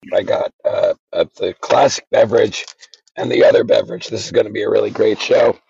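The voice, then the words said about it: Hoarse, gravelly voice. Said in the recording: “you sound worse. Awful. ... you sound like you've been gargling gravel or something ... did you smoke like 3 packs of cigarettes?”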